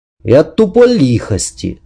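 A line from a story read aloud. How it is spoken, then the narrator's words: Angry reply. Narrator (Russian): зло ответил Семен Семенович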